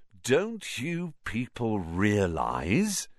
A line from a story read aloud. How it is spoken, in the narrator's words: said Lockhart, speaking slowly, as though they were all a bit dim